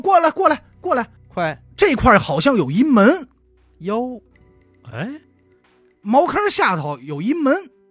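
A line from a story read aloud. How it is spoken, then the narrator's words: Nasal shout, nose pinched. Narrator (Chinese): 阿大是捏着鼻子啊，当时就喊人说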